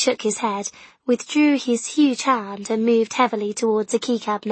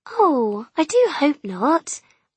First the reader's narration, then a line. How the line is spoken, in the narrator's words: Mum said cheerfully